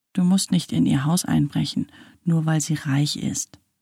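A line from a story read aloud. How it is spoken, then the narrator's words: Quiet. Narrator (German): sagte Elias leise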